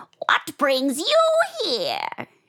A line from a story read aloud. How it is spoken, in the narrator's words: she screeched at Ivan